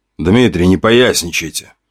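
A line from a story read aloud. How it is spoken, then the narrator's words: Grumbling. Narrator (Russian): ворчал Воробьев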